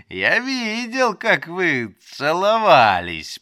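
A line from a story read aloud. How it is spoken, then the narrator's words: Giggling, teasing repetition. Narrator (Russian): повторил я, хихикая и наслаждаясь ее смущением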